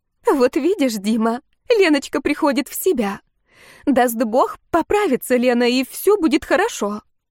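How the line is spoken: Joyful mother-in-law. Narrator (Russian): Свекровь обрадованным голосом сказала

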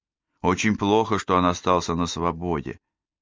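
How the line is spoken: Plain. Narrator (Russian): сказал Фредерик

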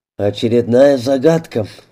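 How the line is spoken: Sighing. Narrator (Russian): вздохнул Кротов

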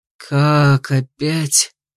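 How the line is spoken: Tired suffering croak. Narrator (Russian): страдальчески прохрипел голосом невыспавшегося человека

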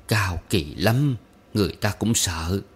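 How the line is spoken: Weary, dejected. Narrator (Vietnamese): Bà Tú nói bằng giọng chán nản

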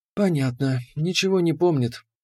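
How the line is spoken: Calm statement. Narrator (Russian): спокойно констатировала Леандра

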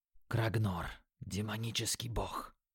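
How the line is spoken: Quiet speech. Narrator (Russian): тихо сказал Юки

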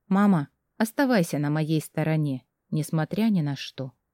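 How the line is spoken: Quiet request. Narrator (Russian): тихо попросила

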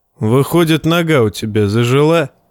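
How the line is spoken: Snorting. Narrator (Russian): хмыкнул Ноя

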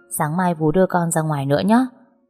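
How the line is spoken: Smiling, pensive. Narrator (Vietnamese): Tôi mỉm cười thoáng đăm chiêu rồi lên tiếng

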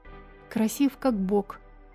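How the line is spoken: Quiet agreement. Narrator (Russian): Тихо согласилась Окта

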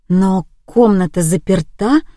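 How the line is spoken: Confused mutter. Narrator (Russian): растерянно пробормотала

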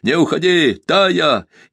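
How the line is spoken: Breathless unrestrained shout. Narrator (Russian): Задыхаясь, он крикнул, не сдерживая голоса

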